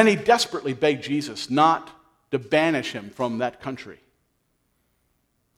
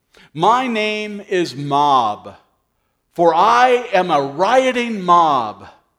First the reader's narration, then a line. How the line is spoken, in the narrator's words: bellowed out in protest